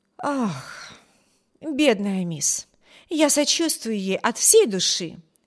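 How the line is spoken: Sighing, sympathetic. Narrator (Russian): вздохнула Энн

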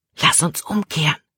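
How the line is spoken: Whisper. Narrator (German): flüsterte Caleb

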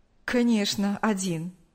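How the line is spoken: Smirking. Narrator (Russian): усмехнулся Павел

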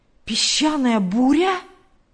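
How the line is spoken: Exclaiming. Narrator (Russian): воскликнул Билл

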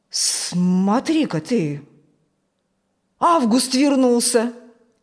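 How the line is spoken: Surprised exclamation. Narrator (Russian): удивленно воскликнул Фокт

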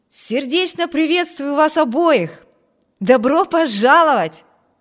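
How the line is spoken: Exclaimed. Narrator (Russian): воскликнул Виберт

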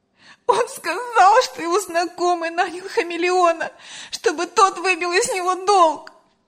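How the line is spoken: Sobbing. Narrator (Russian): разрыдалась Лена

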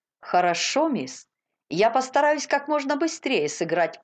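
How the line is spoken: Cheerful. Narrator (Russian): весело сказал

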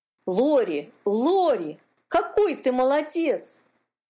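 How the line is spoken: Joyful exclamation. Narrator (Russian): воскликнул Кири, когда увидел подплывающего братишку

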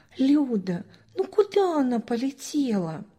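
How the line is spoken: Gentle older sister. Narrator (Russian): Старшая сестра обняла пятилетнюю девочку и ласково объяснила

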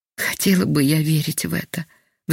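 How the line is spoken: Sick woman sighing. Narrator (Russian): вздохнула больная

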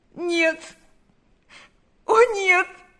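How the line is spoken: Sobbing. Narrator (Russian): зарыдала она

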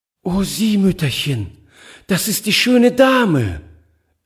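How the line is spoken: Delighted cry. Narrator (German): rief sie voll Entzücken

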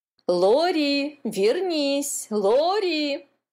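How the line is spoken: Mother shouting. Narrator (Russian): кричала мама

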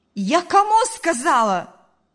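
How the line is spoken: Mother shouting. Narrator (Russian): закричала мать

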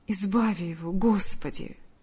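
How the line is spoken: Whispered. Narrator (Russian): прошептала Ульяна

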